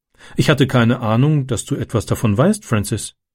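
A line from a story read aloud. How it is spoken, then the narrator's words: Plain. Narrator (German): sagte sie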